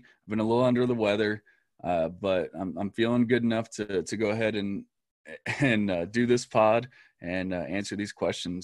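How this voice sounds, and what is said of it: Scratchy, slightly hoarse voice. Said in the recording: “You can still hear it's kind of scratchy ... as you can hear, my voice is still a little scratchy.”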